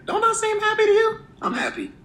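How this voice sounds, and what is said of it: Raised high-pitched happy voice. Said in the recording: “See how high my voice went?”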